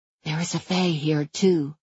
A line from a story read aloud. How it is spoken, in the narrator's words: I whispered